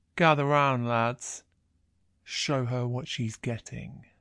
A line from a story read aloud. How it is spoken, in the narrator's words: he says, his voice catching as he tries to push words out through his lust